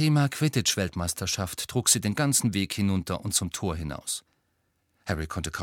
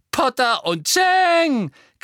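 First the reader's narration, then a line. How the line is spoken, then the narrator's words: Shrieking, mocking giggling chorus. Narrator (German): kreischte und ein höhnisch kichernder Chor begleitete sie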